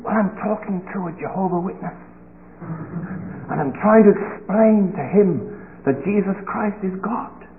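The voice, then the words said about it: Quiet, hushed voice. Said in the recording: “Why are you talking so quietly?”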